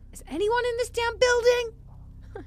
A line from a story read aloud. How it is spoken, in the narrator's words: I screamed